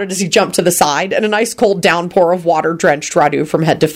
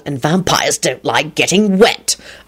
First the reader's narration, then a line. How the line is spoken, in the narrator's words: Lupin growled